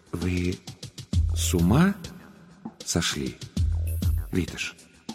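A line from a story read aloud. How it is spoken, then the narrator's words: Slow, measured question. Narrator (Russian): Красильчикюс медленно с расстановкой спросил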